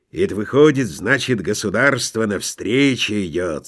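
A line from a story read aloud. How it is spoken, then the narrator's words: Gloomy. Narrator (Russian): сказал он мрачно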